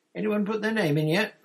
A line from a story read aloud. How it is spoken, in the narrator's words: Ron asked eagerly